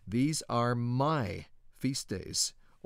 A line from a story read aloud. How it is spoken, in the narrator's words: Almighty Yahuwah thunders forth from His holy habitation